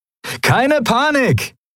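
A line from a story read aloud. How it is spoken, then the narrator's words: Cheerful call to companions. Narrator (German): rief Sephiron seinen Kumpanen in bester Laune zu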